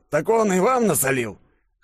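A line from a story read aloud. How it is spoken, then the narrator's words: Snorting scarred man. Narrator (Russian): хмыкнул лицо со шрамом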